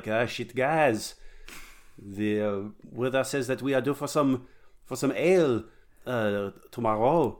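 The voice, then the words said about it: Mock French accent. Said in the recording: “do my dumb French accent”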